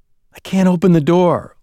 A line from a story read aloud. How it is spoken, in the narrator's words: Lewis gasped